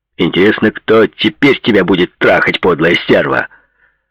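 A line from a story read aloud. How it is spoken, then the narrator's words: Furious shout. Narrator (Russian): в ярости закричал Пол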